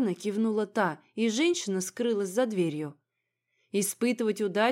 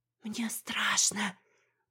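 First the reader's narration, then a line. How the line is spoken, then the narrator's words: Whispered. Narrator (Russian): прошептала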